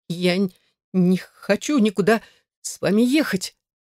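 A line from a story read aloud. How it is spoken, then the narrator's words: Terrified stammering through tears. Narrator (Russian): пролепетала я, заикаясь от ужаса и глотая злые слезы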